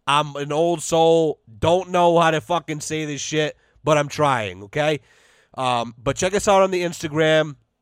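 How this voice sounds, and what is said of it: Voice giving out, strained. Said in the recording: “I'm losing my voice.”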